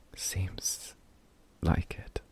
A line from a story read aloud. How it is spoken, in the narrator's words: Crow whispered